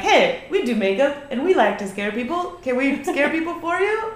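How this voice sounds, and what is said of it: Puts on an accent. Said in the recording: “Where'd the accent come from? All of a sudden, we like to scare you?”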